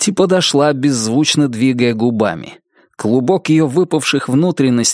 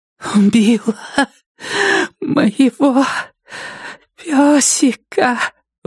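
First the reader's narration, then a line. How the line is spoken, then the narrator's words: Breathed out. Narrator (Russian): выдохнула Нетти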